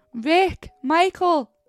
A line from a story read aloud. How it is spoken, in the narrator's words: Gareth shouted